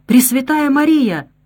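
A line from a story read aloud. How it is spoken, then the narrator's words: Exclaimed. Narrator (Russian): воскликнула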